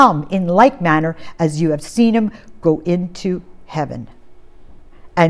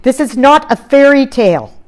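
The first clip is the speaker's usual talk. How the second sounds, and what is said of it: Loud, emphatic speech. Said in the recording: “I'm going to say this loudly”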